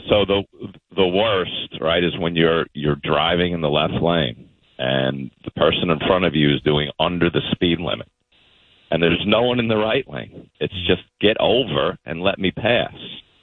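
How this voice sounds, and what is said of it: Smooth radio announcer voice. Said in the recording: “Your voice. It's a radio voice... Overnight FM”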